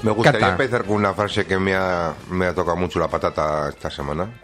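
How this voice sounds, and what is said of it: Usual voice. Nothing is said of it.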